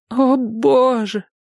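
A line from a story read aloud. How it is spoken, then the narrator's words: Moaning. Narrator (Russian): простонала она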